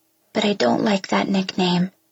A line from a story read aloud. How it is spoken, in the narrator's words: I say quietly